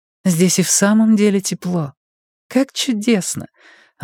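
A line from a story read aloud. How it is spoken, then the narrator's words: Laughing joyfully. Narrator (Russian): радостно смеясь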